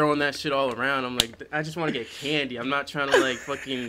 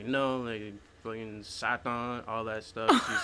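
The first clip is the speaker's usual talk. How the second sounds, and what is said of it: Put-on accent. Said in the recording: “you got the accent”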